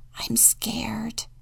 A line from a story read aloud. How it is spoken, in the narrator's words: He hesitated to move and whispered